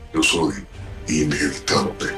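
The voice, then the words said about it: Imitates Thanos's deep villain voice. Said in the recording (Spanish): “cuando Thanos dice soy inevitable ... hacer la voz ... ¡Qué voz!”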